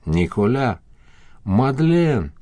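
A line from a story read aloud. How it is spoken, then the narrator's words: Breathed out, forced smile. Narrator (Russian): Она попыталась улыбнуться и выдохнула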